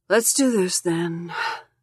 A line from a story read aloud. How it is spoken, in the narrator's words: she says, sighing